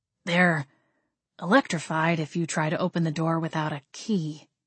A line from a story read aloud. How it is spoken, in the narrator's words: Gabriel cleared his throat and very softly said